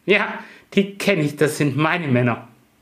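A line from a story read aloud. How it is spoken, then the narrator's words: Laughing reply. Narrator (German): lachende Antwort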